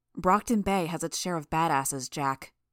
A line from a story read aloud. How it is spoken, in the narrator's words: I said, my voice hard with repressed outrage